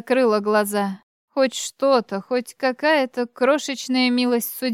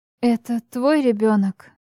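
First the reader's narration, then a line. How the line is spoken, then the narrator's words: Strained, forced out. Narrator (Russian): выдавила я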